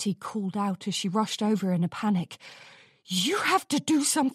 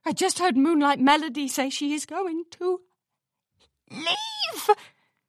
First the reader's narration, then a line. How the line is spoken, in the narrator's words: Rarity whimpered